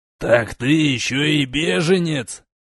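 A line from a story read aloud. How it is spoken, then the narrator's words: Growling, burly man. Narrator (Russian): зарычал дюжий сотник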